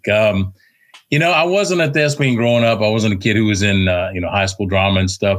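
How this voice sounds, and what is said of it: Southern Texas twang. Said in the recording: “born in Virginia, raised in Texas. So you're probably going to hear a twang to my voice”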